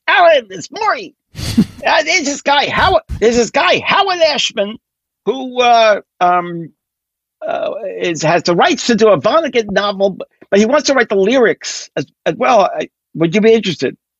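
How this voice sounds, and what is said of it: Imitates another person's voice. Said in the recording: “my Maury impression”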